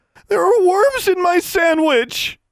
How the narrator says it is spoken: she screamed

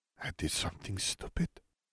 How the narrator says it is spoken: she whispered

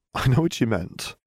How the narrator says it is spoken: Harry chuckled

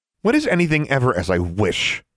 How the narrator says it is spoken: Alexandra snapped

